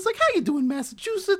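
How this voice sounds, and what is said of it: Enthusiastic squeaky voice, Worcester accent. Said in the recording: “He had a very squeaky voice with a Worcester accent. ... That's pretty good.”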